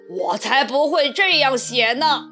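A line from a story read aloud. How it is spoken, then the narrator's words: Lion roaring loudly. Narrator (Chinese): 狮子大吼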